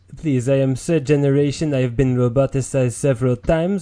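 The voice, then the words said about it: Put-on French accent. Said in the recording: “you French peoples ... it's a sexy accent.”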